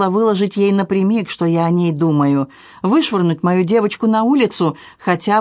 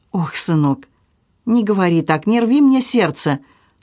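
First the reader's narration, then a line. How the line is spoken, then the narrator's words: Mother pleading near tears. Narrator (Russian): Чуть не плача, взмолилась мать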